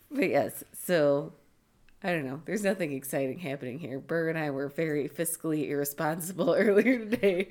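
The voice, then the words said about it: Voice going hoarse, losing voice. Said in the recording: “As I'm starting to lose my voice, because I hacked up a lung earlier.”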